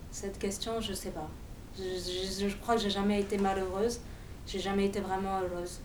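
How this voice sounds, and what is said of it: Slight Russian-sounding foreign accent. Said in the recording (French): “L'accent Ladas. ... Un peu russe comme accent. ... On me dit un peu de tout. ... Un peu de Barbès, un peu de partout”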